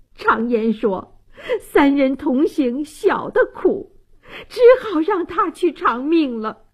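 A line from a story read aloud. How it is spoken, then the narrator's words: Choked sobbing. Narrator (Chinese): 王大妈泣不成声，哽咽道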